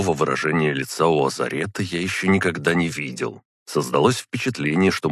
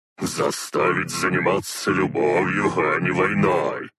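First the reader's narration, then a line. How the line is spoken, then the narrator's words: Laughing. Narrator (Russian): Азарет снова хохотнул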